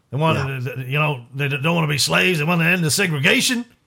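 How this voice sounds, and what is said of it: Impersonation with redneck American accent. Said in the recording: “my Winston Churchill impersonation with a redneck American accent”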